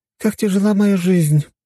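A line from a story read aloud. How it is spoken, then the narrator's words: Sighing. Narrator (Russian): вздохнула Фиорель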